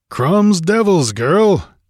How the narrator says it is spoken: he grunted

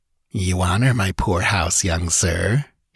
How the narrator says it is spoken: he laughed coolly

